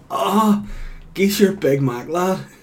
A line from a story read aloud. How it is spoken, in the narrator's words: shouting